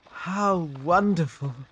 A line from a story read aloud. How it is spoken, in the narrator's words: sighed Blue Bunny, his dark eyes shining